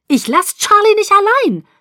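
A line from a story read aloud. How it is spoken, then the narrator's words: Screaming. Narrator (German): schrie ich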